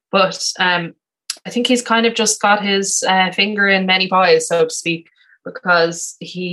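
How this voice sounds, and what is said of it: Usual voice. Nothing is said of it.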